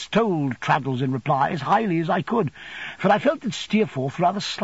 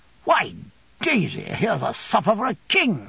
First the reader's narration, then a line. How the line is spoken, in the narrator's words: he exclaimed, starting out of his silence with a burst